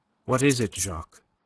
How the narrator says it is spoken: Her voice was steady now that the need for self-control seemed thrust upon her

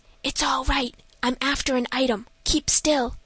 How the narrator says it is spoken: whispered

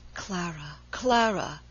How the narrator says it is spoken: he murmured in a low, pleading voice

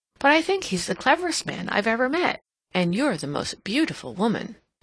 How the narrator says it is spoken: she exclaimed

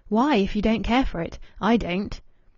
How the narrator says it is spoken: Louis asked sharply

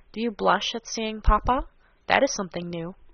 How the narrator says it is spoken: said Monsieur de Bassompierre in a low voice, with a grave smile

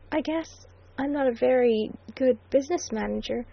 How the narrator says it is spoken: faltered the red-lipped voice with incongruous pathos

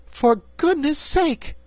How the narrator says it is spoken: cried Dorothy, amazed

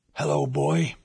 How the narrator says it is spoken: he croaked

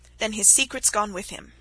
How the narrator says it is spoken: remarked Myerst calmly

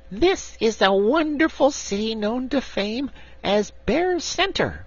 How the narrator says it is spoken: the little brown bear said in a proud and impressive voice, although it still squeaked

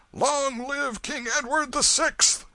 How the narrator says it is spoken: another cry shook the night with its far-reaching thunders

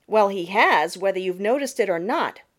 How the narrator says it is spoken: retorted Jenny Wren sharply

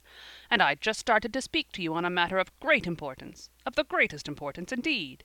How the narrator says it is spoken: he repeated irritably

